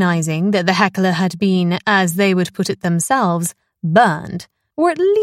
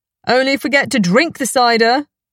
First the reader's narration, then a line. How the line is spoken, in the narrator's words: a voice came from the audience